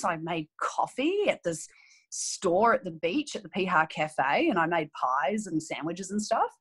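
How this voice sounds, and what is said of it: New Zealand accent. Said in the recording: “I grew up in New Zealand, if you can't tell. Some days I have a stronger accent than others”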